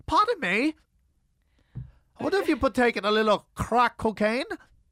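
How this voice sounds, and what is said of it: Bad fake British accent. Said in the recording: “I don't think anyone would confuse the accent you're doing with the British ... you know I'm known for my goddamn awful accents”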